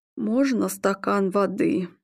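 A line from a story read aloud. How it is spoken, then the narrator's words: Strained. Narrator (Russian): выдавил Игорь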